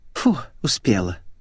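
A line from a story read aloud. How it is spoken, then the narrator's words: Relieved exhale. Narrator (Russian): выдохнула Светик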